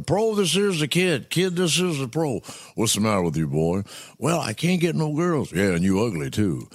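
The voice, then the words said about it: Imitates another person's voice. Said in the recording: “they thought I did a good impersonation ... Bill Cosby, I did all the football stuff”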